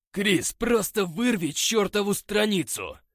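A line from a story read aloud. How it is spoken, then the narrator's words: Angry shout. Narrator (Russian): Злобно крикнул Скотт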